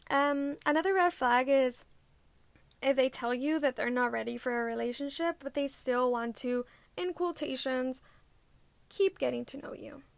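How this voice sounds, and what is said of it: Stuffy, congested nasal voice. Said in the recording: “I sound like my nose is super stuffy. I guess I have allergies.”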